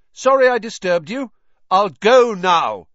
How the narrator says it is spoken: he half shouted

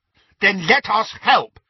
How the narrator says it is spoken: said Neville angrily

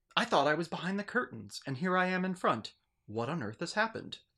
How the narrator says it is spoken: exclaimed the medium

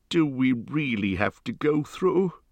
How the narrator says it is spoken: groaned the hobbit

